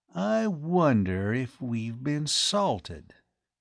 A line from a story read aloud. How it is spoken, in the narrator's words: he said slowly